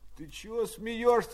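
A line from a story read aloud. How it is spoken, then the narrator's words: Sleepy question. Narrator (Russian): спросил сонным голосом Пущин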